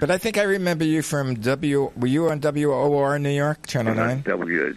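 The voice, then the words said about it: Brooklyn accent. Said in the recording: “I'm a Brooklyn native, if you can't tell from my accent.”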